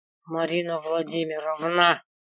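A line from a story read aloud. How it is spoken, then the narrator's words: Dragon hissing through teeth. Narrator (Russian): Сквозь зубы прошипел дракон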